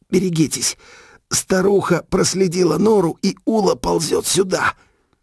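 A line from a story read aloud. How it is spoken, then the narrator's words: Hoarse rasp. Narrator (Russian): Я прохрипел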